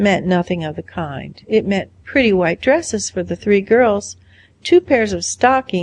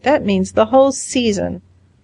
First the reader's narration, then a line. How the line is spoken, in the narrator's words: groaned Gilbert